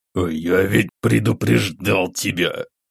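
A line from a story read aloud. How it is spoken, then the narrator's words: Through clenched teeth. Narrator (Russian): сквозь зубы процедил Игнат Сергеевич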